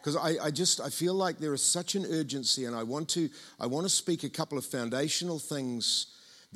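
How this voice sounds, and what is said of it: New Zealand (Tauranga) accent. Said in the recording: “my Tauranga accent”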